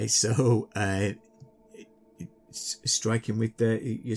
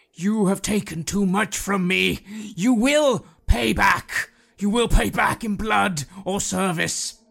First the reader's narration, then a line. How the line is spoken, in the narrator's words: yelling